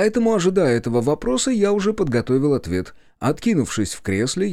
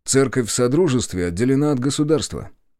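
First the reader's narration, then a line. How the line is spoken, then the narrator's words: Calm remark. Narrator (Russian): заметил спокойно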